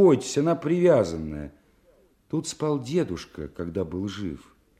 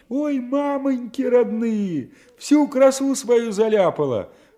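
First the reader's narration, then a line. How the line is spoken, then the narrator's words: Shrieking. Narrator (Russian): взвизгивал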